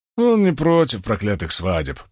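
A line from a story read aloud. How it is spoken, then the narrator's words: Grumbled. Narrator (Russian): пробурчал Уна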